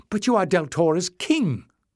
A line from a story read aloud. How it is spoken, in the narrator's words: cried Jasmine